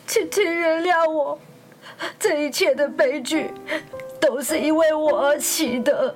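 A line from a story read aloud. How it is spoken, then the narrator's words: Sad, crying. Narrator (Chinese): 哈姆雷特伤心的哭着说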